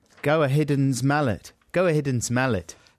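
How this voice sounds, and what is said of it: Put-on South African accent. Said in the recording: “you're saying go ahead and smell it in a South African accent”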